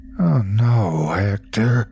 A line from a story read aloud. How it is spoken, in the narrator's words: I moaned